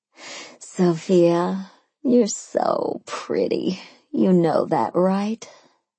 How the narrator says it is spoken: I cooed

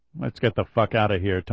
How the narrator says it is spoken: Tony replied quietly

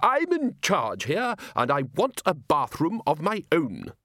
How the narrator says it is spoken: said Ridcully firmly

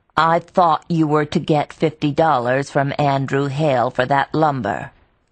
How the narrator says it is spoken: Xena said in a level voice

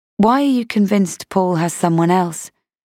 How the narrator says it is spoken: She sighed

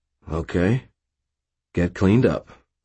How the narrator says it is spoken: Forthill replied, his tone firm

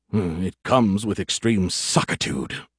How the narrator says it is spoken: he grumbled

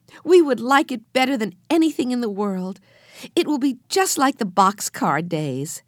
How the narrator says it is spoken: cried Jessie

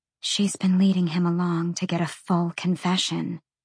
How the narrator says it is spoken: Sabine whispered

